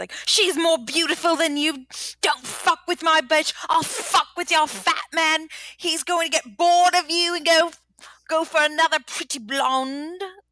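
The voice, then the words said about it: Put-on English accent, not great. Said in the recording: “That's not a good accent. ... it's much better than I could do. Honestly, I have no English accent.”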